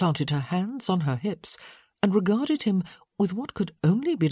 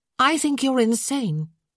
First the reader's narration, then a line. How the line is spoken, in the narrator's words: she added sharply